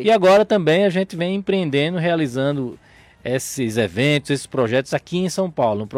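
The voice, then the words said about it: Northeastern Brazilian accent. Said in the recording (Portuguese): “sotaque aí, de onde é que é mesmo? ... Eu sou do Nordeste. Sou do Rio Grande do Norte.”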